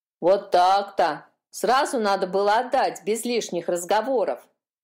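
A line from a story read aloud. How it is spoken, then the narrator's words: Grumbling. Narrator (Russian): проворчала та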